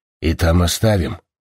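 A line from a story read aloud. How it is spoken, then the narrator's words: Muttered. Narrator (Russian): буркнула Фрида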